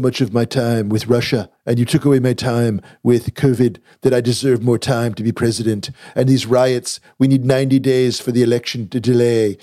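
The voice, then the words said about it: Trump impression, Alec Baldwin style. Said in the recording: “does a Trump impression, all I think of is Alec Baldwin ... Everyone's Trump impression is basically Alec Baldwin. I'm not making any great claims to my Trump impression, but I just feel like I have to channel it a little bit.”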